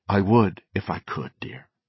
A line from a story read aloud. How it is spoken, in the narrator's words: he said gently